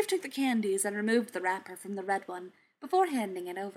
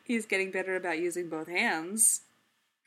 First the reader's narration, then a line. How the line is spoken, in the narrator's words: Bruce said, laughing